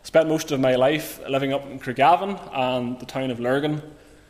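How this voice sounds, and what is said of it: Northern Irish accent, County Armagh. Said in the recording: “you maybe can detect from the accent that I'm from County Armagh”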